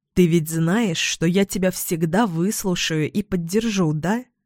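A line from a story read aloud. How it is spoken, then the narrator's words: Soft, careful. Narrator (Russian): Мягко говорю ей, чувствуя, что разговор предстоит непростой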